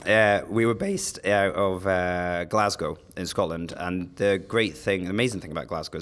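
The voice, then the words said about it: Hoarse, strained, fading voice. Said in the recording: “I'm losing my voice.”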